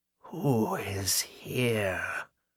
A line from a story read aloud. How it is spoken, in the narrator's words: Agatha whispered, and her tone might have withered grass